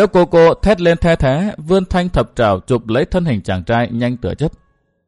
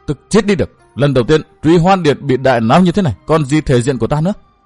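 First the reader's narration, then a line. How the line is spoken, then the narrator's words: Furious roar. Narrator (Vietnamese): Dâm Liễu Cô gầm lên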